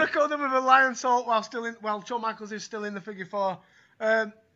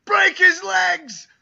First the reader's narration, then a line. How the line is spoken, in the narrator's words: Jericho screams as loud as he can